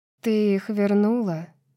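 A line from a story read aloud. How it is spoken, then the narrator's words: Quiet. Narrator (Russian): тихо сказала Неста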